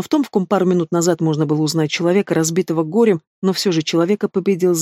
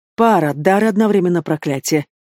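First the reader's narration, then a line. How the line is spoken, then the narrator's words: Demon snorting. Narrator (Russian): хмыкнул демон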